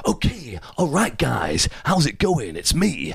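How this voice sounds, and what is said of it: Faux American accent impression. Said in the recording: “you do your impression of him ... They sort of talk in this faux American accent”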